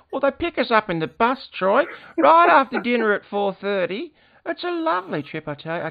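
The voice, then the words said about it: Old grandmother character voice. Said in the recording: “your Nana voice seem to sound a lot like your impersonation of my mother”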